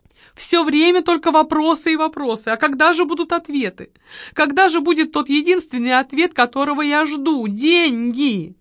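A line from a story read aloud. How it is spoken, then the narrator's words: Loud fake sob. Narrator (Russian): Она громко, ненатурально всхлипнула и проговорила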